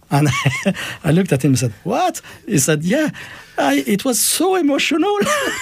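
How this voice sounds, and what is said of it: Speaks with a noticeable accent. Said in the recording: “when you hear it, of course, in your accent, it's so much nicer”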